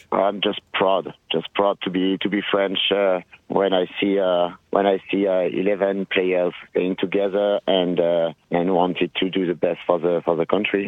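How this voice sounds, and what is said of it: French accent. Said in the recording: “Love that accent.”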